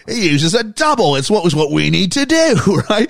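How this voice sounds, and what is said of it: Put-on Cockney accent. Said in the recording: “That's my best attempt. ... You and your cockney accent.”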